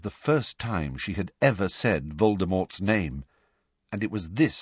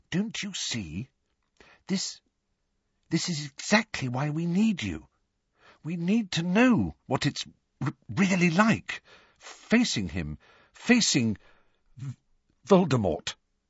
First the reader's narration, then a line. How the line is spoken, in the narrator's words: said timidly